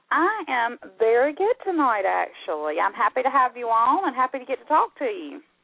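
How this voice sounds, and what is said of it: Southern US twang accent. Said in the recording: “Your accent is so darling... I am from Georgia, so I do have my southern twang going on.”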